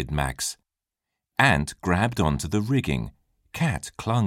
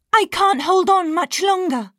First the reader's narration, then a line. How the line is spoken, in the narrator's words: cried Ant